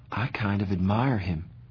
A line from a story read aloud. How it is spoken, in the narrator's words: Cherry said softly, so only I heard